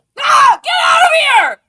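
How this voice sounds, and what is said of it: Screaming. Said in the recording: “I'm screaming.”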